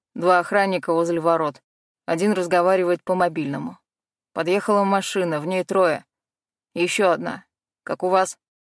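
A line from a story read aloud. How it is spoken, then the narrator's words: Low male bass voice. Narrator (Russian): Низкий мужской голос пробасил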